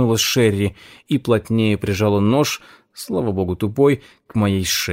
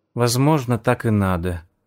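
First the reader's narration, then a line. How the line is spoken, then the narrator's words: Sad. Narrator (Russian): грустно сказала Пегги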